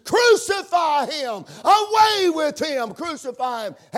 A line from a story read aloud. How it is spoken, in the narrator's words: hollered and screamed